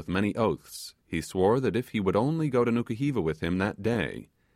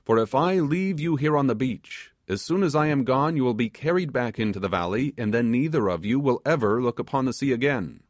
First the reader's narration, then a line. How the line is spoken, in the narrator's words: exclaimed the sailor